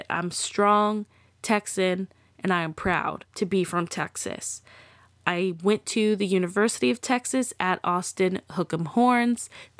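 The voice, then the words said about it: Texas accent. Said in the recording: “If you can't tell from my accent, because I can't, that I'm from here ... forgive me if my Texas shows a little bit”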